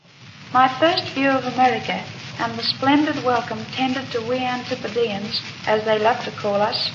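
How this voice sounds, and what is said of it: Old-fashioned Australian accent. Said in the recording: “the Australian accent of what, almost 100 years ago”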